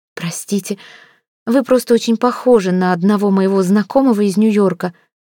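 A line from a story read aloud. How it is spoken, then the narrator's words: Girl's flustered babble. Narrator (Russian): пролепетала девушка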